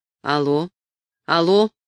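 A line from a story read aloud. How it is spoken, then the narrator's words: Dry, flat. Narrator (Russian): сказал своим обычным, сухим и невыразительным голосом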